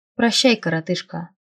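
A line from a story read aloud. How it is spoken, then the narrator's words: Snort. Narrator (Russian): хмыкнул Дитмар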